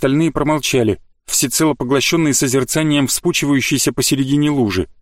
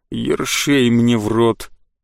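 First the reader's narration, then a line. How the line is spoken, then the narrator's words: Melancholy droning, young man. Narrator (Russian): тоскливо прогудел стоящий в центре пугливо изогнувшейся первой линии парень с топором и щитом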